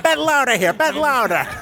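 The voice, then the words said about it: Put-on American accent. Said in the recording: “That's as much as I'm going with the accent.”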